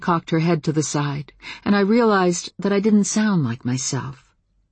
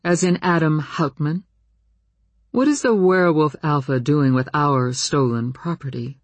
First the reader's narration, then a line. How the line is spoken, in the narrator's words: Namani said coolly